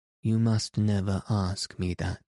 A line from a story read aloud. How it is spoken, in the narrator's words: he said, in a gloomy voice